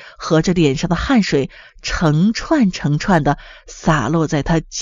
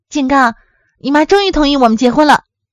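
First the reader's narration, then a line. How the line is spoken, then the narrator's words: Cheerful. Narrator (Chinese): 小玉的声音却显得特别欢快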